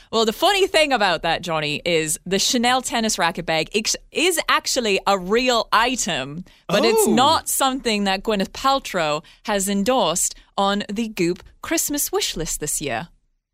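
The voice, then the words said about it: Put-on British accent. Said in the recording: “I don't know what's going on with this British accent. It's a little David Attenborough.”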